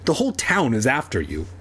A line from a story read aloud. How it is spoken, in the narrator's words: Kermit exclaimed